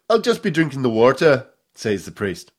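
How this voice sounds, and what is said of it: Attempted Irish accent. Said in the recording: “I can't really do an Irish accent.”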